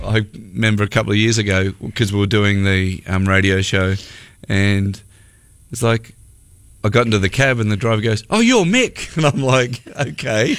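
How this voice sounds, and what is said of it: Speaks with a distinctive accent. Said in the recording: “everybody's all about your accent ... how they love listening to you because of your accent ... Having an accent does create some interest.”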